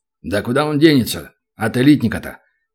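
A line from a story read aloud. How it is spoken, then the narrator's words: Deep bass voice. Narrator (Russian): Пробасил 105-й полуорк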